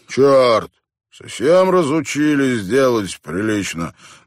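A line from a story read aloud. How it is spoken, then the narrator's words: Gloomy grumble. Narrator (Russian): мрачно проворчал он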